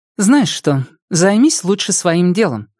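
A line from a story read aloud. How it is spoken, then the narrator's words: Even, flat tone. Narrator (Russian): ровным тоном произнесла Айрис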